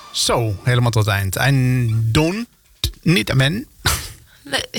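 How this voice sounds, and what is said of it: Put-on unidentified accent. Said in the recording (Dutch): “Wat is dit voor accent? ... Ik probeerde wat.”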